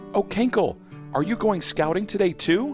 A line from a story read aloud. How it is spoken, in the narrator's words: Hannah Bee buzzes excitedly